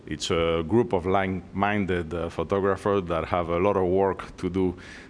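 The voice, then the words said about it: Spanish accent. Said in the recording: “I'm originally from Spain. That's where my funny accent comes from.”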